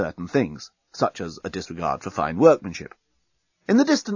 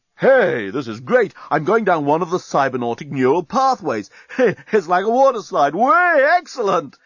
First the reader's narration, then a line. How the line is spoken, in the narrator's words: exclaimed Dan